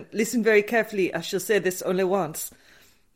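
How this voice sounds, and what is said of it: Put-on French accent. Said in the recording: “How's your French accent?”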